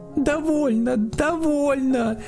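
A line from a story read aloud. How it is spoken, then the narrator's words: Terrified shout. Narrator (Russian): в ужасе закричала Женя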